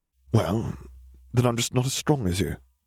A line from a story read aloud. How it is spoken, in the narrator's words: Neville muttered